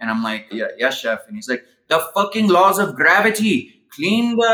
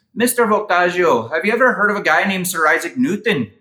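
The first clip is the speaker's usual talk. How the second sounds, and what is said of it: Imitated Irish accent, self-admittedly poor. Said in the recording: “he was Irish and I'm going to butcher this accent”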